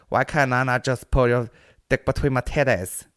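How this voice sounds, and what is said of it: Vaguely Asian put-on accent. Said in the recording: “my vaguely Asian prostitute... Which actually sounds like an Asian male”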